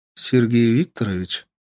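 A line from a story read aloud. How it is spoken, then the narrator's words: Businesslike question. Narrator (Russian): деловым тоном спросила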